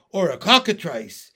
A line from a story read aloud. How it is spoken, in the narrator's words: yelled the chief of police